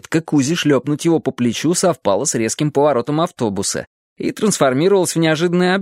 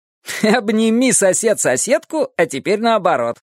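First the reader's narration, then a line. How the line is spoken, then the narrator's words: Laughing. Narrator (Russian): засмеялся Сёма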